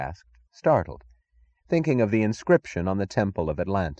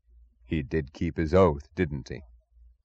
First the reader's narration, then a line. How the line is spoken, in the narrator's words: he said suddenly, his voice soft and low with the weight of admiration